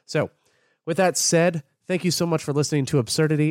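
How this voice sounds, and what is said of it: Congested, sick-sounding voice. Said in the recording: “you can hear a lot more, uh, what's the word, congestion in my voice ... because of my lovely allergies ... I sound sick ... my sinuses hate me”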